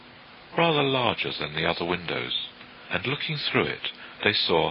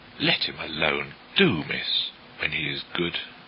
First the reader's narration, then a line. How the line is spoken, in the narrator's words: Martha said crossly